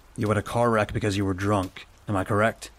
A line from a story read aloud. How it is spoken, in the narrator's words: I said in my best stoic voice